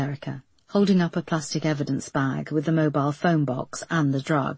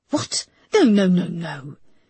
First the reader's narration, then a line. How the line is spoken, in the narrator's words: he snapped